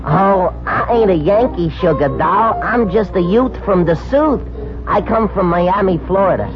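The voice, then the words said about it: New York accent. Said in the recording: “You have a New York accent.”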